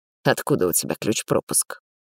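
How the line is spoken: Tired. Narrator (Russian): Бросил устало

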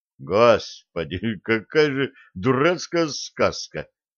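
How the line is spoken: Dejected sigh. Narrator (Russian): удрученно вздохнул юноша

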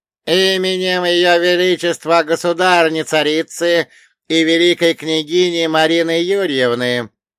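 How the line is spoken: Loud proclamation. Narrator (Russian): провозгласил он громко, так, чтобы слышали все

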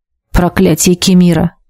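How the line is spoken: Mumbled. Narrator (Russian): пробормотала я

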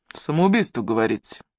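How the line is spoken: Muttered through teeth. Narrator (Russian): пробурчал он сквозь зубы

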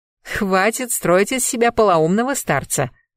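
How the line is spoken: Knowing laugh. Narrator (Russian): засмеялась, поняв, куда старый хитрец клонит

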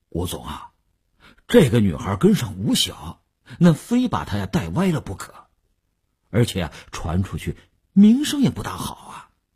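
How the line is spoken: Hesitant, reluctant speech. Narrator (Chinese): 李大公欲言又止，李大公才说

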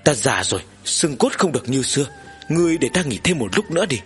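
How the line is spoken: Old man sighing. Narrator (Vietnamese): Ông nội mù thở dài

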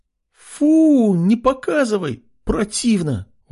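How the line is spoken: Girls exclaiming in disgust. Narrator (Russian): воскликнули девушки

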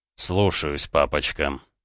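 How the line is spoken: Mumbled. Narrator (Russian): пробормотал Рома

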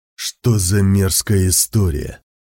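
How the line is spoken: Muttered through teeth. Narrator (Russian): процедил он

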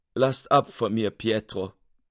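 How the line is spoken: Sobbing, weeping. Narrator (German): stürzte ein Tränenstrom aus seinen Augen, und er weinte und schluchzte

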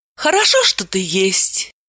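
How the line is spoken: Affectionate. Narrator (Russian): ласково произнесла Далила

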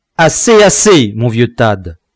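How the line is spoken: Shouting. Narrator (French): cria le capitaine

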